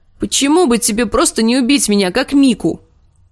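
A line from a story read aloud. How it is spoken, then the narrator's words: Angry shout, girl. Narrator (Russian): крикнула Арья, которая не столько испугалась, сколько разозлилась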